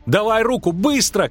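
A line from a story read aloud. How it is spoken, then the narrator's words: Shout. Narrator (Russian): крикнул Лютик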